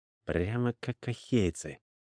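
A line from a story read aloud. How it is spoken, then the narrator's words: Muttered under breath. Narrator (Russian): буркнул себе под нос Рапану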